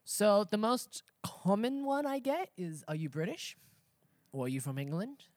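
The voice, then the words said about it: Australian accent. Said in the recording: “I love your accent... Where's your accent from? Which is quite weird because I'm from Australia.”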